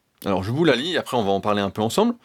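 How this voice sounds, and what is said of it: Speaks French with a foreign accent. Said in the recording (French): “Je m'excuse pour euh, mon super accent.”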